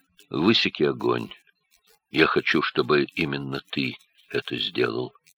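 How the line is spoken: Quiet command. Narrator (Russian): Оттор негромко велел Хельге

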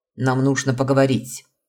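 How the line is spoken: Sharp. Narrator (Russian): резко начал Аарон

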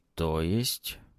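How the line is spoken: Quiet. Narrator (Russian): начал тихо

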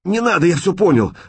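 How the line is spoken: Shouting while sobbing. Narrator (Russian): закричал Шкет и заплакал навзрыд

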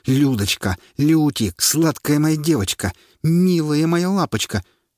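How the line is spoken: Yelled, losing control. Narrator (Russian): Паша, не выдержав, заорал

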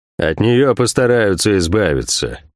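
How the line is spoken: Gloomy. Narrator (Russian): мрачно произнес Кивилл де Монтак

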